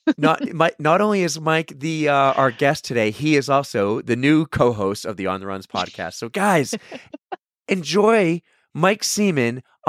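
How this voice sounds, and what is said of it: Raspy voice. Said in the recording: “my voice, again, still raspy as I talk and talk and talk.”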